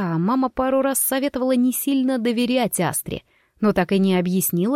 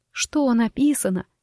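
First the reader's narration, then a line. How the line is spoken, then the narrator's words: Whisper, holding back tears. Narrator (Russian): прошептала я, кусая губы, чтобы не разреветься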